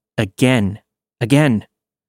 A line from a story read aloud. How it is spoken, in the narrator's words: his tone became angry, and he just said